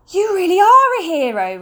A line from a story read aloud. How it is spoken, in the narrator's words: Ruskin exclaimed